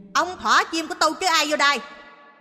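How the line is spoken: Hissing. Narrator (Vietnamese): bà miệng rít lên

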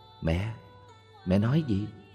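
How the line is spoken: Soft close question. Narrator (Vietnamese): Con bà ghé sát hỏi khẽ

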